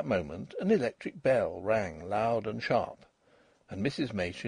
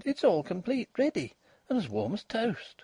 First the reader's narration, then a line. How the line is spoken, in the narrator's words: she cried